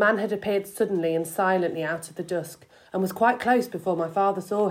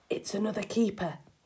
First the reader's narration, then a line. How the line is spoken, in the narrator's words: whispered